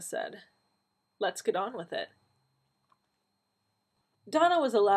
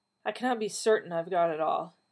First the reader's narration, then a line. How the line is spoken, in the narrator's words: he said wearily